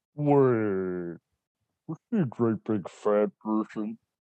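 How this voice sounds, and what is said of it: Imitates a movie serial killer's voice. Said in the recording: “can you do the serial killer in it? Was it Buffalo Bill? ... That's pretty good. I could see how you can get the ladies with that impression”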